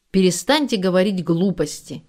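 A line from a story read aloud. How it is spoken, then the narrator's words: Unusually stern shout. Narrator (Russian): с несвойственной ему строгостью прикрикнул Борис Николаевич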